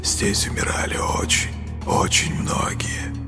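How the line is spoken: Hissing whisper. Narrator (Russian): раздался его свистящий шепот

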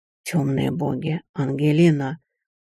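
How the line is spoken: Breathless exclamation. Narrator (Russian): выдохнул он к демонам

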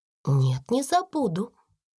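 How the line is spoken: Calm reply. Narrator (Russian): спокойно ответила Сара

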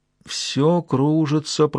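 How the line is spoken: Muttering. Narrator (Russian): пробормотала Джун

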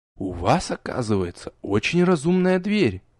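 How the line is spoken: Confiding whisper. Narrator (Russian): доверительно шепнул

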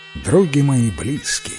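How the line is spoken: Plain. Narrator (Russian): говорит Иван

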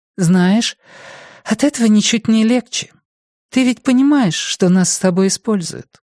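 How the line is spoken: Sad question. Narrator (Russian): грустно спросила Лисистрата

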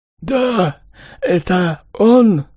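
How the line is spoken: Hoarse wheeze. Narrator (Russian): прохрипел азиат

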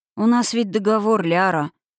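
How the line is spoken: Tired. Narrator (Russian): устало Налсур

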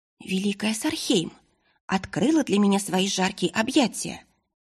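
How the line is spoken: Plain, young woman. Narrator (Russian): ответила юная Сириана

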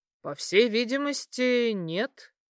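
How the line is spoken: Pleased snort. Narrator (Russian): хмыкнул довольно Питер

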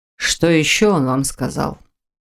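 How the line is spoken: Stern question. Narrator (Russian): Строго поинтересовался Фолкнер после продолжительного молчания

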